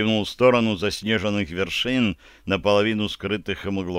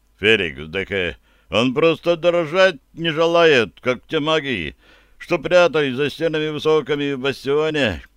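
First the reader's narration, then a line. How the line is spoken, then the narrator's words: Understanding deep bass voice. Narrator (Russian): с пониманием пробасил Барри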